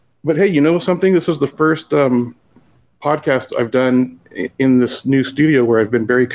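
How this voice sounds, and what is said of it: Usual voice. Nothing is said of it.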